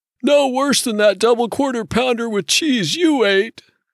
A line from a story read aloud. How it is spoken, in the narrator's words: Ray said in a voice wheezy with pudding roll